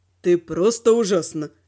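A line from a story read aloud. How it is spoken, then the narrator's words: Purring. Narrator (Russian): Мурлыкнул он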